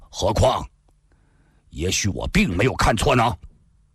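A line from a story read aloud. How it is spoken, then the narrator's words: Sudden, cold. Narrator (Chinese): 赵正义突然又冷冷地说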